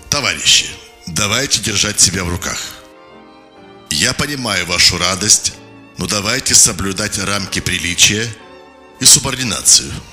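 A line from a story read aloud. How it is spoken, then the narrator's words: Stern, formal speech. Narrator (Russian): Козлов строго, как на партийном собрании, произнес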